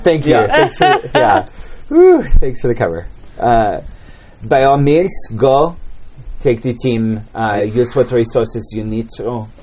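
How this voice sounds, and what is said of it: Put-on French accent. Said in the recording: “your French accent's coming along very nicely.”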